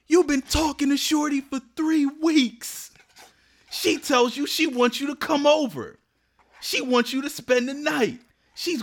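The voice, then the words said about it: Yelling Attorney Big Al commercial impression. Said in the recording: “Attorney Big Al commercials? ... With the dude that's always yelling? ... maybe I'll try to do an impression”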